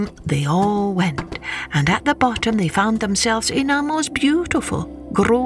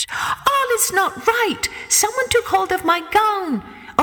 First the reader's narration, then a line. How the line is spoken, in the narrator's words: she cried out to her sisters